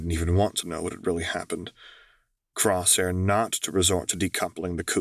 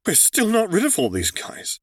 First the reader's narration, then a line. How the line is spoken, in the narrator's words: he blurted out